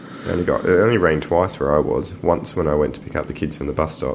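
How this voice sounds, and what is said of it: Congested voice from a cold. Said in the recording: “as you can probably tell, I've got a bit of a cold,”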